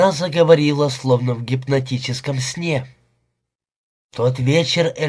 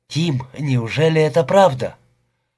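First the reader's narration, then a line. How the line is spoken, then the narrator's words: Trembling, forced out after pause. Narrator (Russian): Она умолкла, а потом дрожащим голосом выдавила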